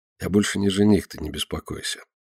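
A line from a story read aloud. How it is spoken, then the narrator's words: Quiet, forced smile. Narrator (Russian): пытаясь улыбнуться, тихо добавляет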